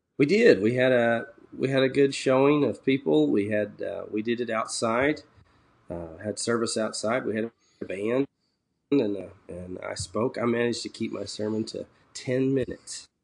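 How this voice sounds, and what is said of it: Congested, sniffly voice from a cold. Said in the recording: “I have a bit of a cold. You can probably hear that in my voice. ... hopefully we won't get too many sniffles on tape”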